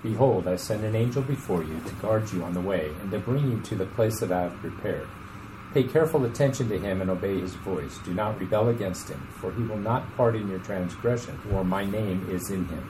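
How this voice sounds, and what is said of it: Radio announcer style voice. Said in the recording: “don't you love that radio voice?”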